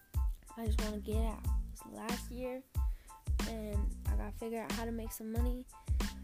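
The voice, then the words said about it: Tired, low-energy voice. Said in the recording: “I'm tired. Can you tell in my voice? I'll be usually more energetic.”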